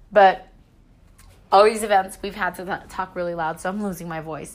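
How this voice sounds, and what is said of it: Strained, hoarse voice. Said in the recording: “I'm losing my voice because I've been, you know, talking a lot and screaming a lot”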